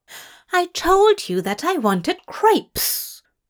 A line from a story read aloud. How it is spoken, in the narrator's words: Aziraphale snapped